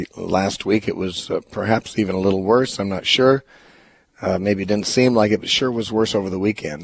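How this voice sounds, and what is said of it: Impaired, strained-sounding voice. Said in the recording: “my voice is still affected ... this voice impairment ... if it sounds painful to you, it isn't”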